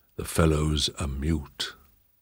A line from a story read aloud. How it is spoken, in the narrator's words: whispered the Duke